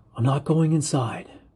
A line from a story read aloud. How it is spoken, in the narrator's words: I whisper